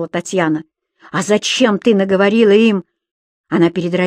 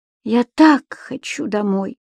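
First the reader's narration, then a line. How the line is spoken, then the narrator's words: Sad mother. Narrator (Russian): печально произнесла мама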